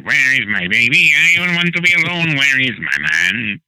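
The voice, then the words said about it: Imitates another person's singing voice. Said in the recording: “I sang it like Eartha ... You do a very good impression of me.”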